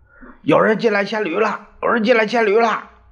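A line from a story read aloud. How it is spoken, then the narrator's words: Startled, panicked shouting. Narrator (Chinese): 衙役们从梦里跳了起来，惊慌的喊着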